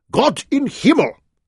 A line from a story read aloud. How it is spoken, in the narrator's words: Graf Otto bellowed